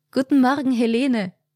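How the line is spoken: Friendly smiling call. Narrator (German): rief sie freundlich lächelnd

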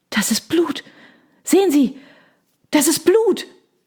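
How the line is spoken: Gasped from behind. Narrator (German): keuchte jemand in der Reihe hinter uns

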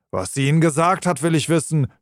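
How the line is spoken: Angry shouting. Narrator (German): schrie der andere wütend

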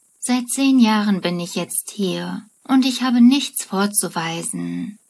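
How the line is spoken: Frustrated sigh. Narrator (German): seufzt frustriert

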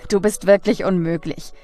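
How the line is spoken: Laughing. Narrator (German): Lachend

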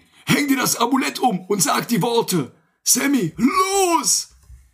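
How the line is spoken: Shouted. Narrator (German): schrie

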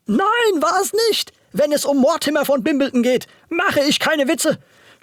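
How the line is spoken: Agitated showman screaming. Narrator (German): schrie der aufgebrachte Schausteller

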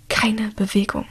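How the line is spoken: Whispered. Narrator (German): flüstert er

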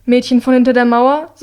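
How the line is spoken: Curt. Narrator (German): sagt sie schroff

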